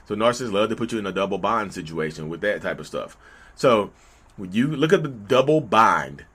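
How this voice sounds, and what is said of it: Southern North Carolina accent. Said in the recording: “my accent is Southern, North Carolina slang, y'all”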